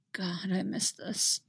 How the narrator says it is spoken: mumble

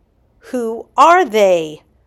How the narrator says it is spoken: He shouted

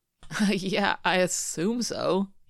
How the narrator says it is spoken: he says through a laugh

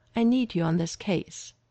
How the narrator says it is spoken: she said, her tone leaving no room for argument

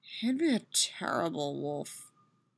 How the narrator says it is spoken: she mutters

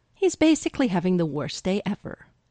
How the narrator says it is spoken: Styles adds quickly

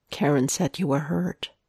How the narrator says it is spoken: Matt says quietly

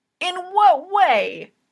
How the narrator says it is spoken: Hinata yelps

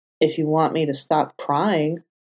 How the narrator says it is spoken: Foggy muttered

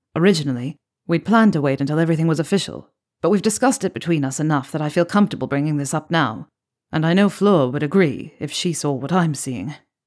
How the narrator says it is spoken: he said

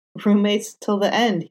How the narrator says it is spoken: said, chuckling awkwardly

